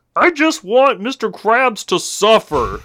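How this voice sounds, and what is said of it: Ernie-like cartoon character voice. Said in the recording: “Is this fucking Ernie from Sesame Street? ... I can't do a Plankton voice, so I just went with the next best thing.”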